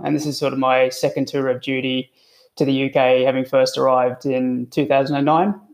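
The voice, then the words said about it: Australian accent. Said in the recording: “you'll notice from the, the accent, I'm not a, a native um, to the Isles, uh, originally from Australia”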